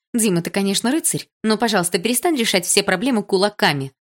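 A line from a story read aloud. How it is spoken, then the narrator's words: Stern teacher. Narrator (Russian): строго сказала учительница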